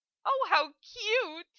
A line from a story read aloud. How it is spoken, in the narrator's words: Amelia squealed